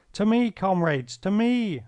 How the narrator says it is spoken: I yelled

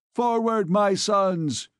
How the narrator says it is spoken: he cried

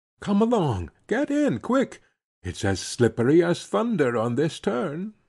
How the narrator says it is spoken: he cried

